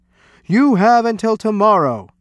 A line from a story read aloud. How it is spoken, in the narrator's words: cried